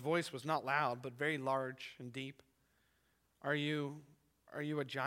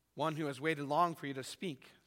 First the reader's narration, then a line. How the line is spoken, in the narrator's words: said the thing